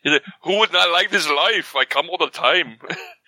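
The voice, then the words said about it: Old Jewish man accent. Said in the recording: “I don't know what that accent turned into ... I turned into like an old Jewish man.”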